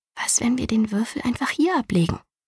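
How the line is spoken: Asked quietly. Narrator (German): fragte sie leise

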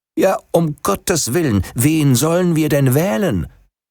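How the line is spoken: Half-yielding exclamation. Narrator (German): Stadtvater schon halb nachgebend rief

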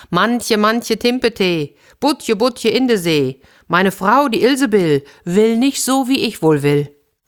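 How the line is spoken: Calling out. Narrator (German): Der Fischer … rief

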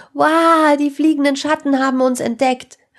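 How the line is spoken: Loud call. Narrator (German): rief Sarah laut

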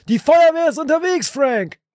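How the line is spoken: Shouting. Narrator (German): schrie

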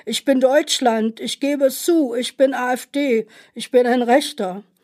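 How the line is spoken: Drunk man shouting. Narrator (German): der Betrunkene schrie

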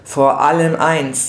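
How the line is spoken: Plain. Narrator (German): sagte er

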